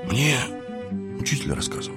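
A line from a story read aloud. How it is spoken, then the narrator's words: Embarrassed boy mumbling. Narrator (Russian): пробормотал мальчик, будто смутившись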